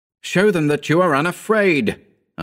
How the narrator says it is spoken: I cried

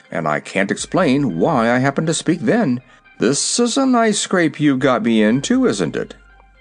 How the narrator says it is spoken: called out the horse

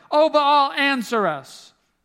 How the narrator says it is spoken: called on the name of Baal from morning until noontime, shouting

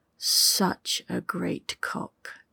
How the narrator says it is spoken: she muttered

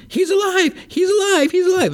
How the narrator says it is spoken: starting to get overtaken, and then she like screams

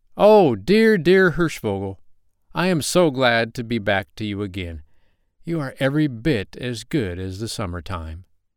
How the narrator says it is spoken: shouted

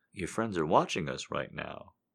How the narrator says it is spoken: say, chuckling

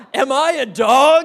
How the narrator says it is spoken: he roared

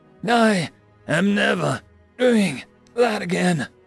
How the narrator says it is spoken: I panted quietly to myself

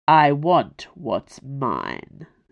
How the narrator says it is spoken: Selwa snarled

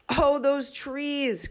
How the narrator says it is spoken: cried James

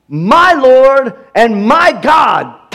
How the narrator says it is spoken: Thomas exclaimed

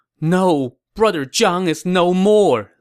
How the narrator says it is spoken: Liu Bei moaned

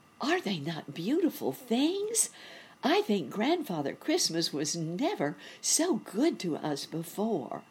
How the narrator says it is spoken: he cried

